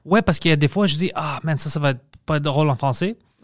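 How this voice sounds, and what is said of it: Strong foreign accent in French. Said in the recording (French): “j'entends mon accent beaucoup plus fort que les autres”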